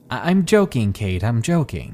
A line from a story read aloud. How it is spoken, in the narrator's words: he says